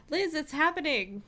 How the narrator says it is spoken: said excitedly

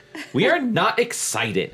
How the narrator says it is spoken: she sneered

